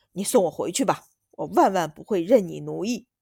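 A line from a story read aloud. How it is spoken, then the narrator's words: Loud through clenched teeth. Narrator (Chinese): 柴二公子咬牙，大声道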